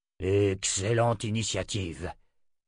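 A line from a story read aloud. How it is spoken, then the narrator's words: Grumbling. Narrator (French): grogna Nathan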